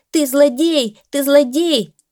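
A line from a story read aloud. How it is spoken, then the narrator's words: Shouting. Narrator (Russian): Скворка закричал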